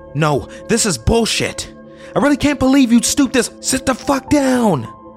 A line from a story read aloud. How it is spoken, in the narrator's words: she yells